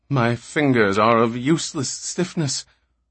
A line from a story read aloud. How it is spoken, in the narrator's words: Magnifico gasped